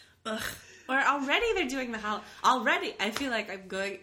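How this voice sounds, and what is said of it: Usual voice. Nothing is said of it.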